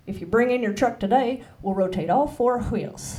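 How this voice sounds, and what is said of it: Put-on Texan accent. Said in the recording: “you can do like a Texan accent ... just read the lines in Texan ... Texan”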